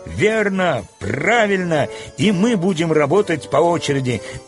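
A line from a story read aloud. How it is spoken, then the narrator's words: Group shouting. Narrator (Russian): закричали литейщики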